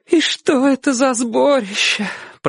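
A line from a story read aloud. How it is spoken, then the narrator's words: Tearful mother's voice. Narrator (Russian): продолжала мать сквозь слезы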